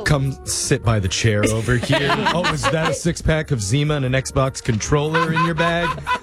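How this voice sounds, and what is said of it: Chris Hansen impression. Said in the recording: “his Chris Hansen impression”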